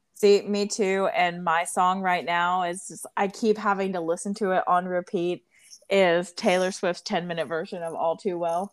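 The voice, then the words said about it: Strained voice with vocal fry. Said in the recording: “I am suffering from vocal fry right now from this song because every time it comes on, I have to yell the lyrics”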